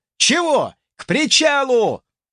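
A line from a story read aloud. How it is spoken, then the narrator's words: Angry shout. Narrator (Russian): злобно выкрикнул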